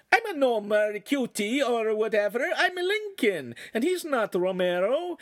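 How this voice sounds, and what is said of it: Silly put-on Italian accent. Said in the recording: “speaking in a silly Italian accent ... replied in his affected accent”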